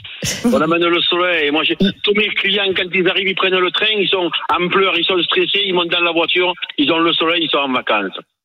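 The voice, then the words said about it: Southern French accent. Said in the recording (French): “c'est le plus bel accent de France de Navarre ... votre accent ... je suis fier de mon accent”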